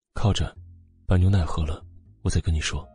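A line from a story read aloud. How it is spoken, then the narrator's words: Gentle voice, complicated feelings. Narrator (Chinese): 穆萧寒的神色十分复杂，声音温和的说着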